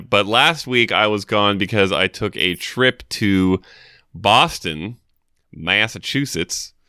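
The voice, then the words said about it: Put-on Southern US accent. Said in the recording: “Why did you say that with the southern accent?”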